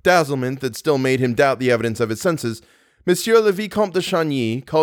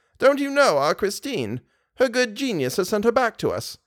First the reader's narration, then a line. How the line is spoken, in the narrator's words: exclaimed Mama Valerius